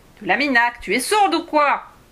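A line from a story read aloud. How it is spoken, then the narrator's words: Yelled. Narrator (French): hurla-t-il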